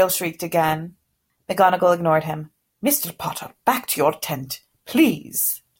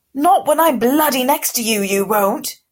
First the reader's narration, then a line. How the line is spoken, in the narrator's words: Goyle yelled